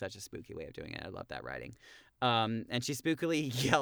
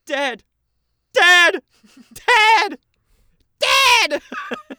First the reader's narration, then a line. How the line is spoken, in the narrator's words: And then she cackles like a witch